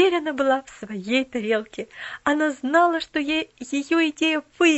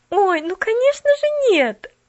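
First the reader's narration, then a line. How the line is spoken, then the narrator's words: Exclaiming. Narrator (Russian): Воскликнула Поллианна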